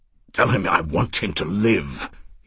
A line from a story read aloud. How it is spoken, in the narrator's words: he said to Jimmy urgently and impatiently